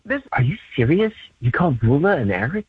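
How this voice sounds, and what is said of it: Whispering. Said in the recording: “you're still whispering”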